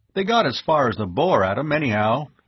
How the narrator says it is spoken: he said

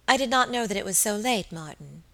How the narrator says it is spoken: said my lady, in that gentle tone which always won for her the willing service of her inferiors

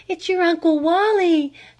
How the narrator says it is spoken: panted her mother

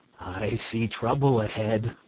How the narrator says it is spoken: murmured the esquire, almost cheerfully

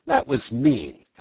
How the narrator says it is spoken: Alice said indignantly

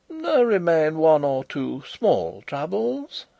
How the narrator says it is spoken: answered the insolent fellow, in the mildest tone in the world

